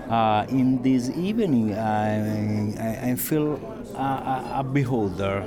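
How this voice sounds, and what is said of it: Italian accent. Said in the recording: “your Italian accent”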